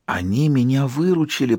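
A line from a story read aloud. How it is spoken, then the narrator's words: Whispering. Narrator (Russian): прошептал Элайджа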